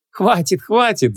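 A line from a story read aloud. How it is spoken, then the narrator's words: Laughing. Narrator (Russian): засмеялась Ванесса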